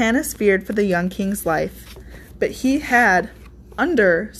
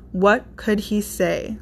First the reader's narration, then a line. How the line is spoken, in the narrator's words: Johannes sighed